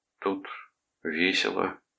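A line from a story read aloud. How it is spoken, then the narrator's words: Gloomy declaration. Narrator (Russian): мрачно заявил он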